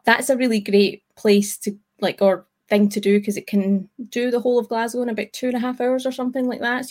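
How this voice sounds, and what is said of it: Scottish accent. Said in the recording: “local Scottish folk ... even ... and I are different parts of Scotland. I don't know if you can pick that up from our accent.”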